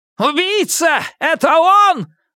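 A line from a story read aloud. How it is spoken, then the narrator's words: Scream. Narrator (Russian): завопила Хирана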